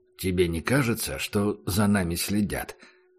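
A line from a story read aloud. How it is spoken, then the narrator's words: Quiet question. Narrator (Russian): спросил Убер негромко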